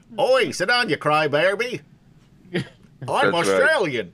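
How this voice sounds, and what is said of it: Bad put-on Australian accent. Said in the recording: “That's my Australian accent, by the way. ... I feel a little bit better about my Australian accent when I hear Kemchans because it's just as bad”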